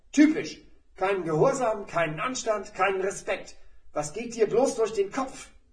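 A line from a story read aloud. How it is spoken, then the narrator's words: Teacher bellowing. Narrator (German): Da brüllte der Lehrer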